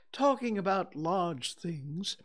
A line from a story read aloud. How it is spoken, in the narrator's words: he went on dreamily